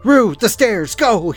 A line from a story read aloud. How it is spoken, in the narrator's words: he shouted